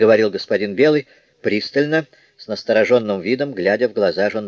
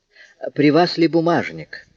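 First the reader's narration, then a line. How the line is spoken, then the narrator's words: Ingratiating, insinuating question. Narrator (Russian): вкрадчивым голосом спросил Жондрет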